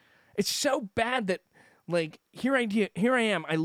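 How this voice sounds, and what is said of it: Usual voice. Nothing is said of it.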